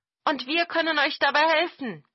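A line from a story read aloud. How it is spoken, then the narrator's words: Crow calling out. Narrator (German): rief eine Krähe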